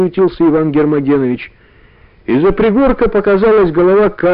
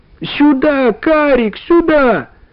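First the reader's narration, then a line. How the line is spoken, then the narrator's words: Shout. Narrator (Russian): закричал Иван Гермогенович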